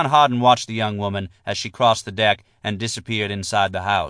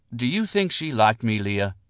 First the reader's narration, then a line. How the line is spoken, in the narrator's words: John Harden asked, and his voice was tender